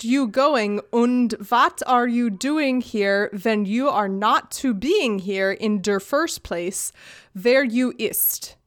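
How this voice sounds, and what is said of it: Put-on German accent. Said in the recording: “sounded German... The accent you put on definitely helped with that”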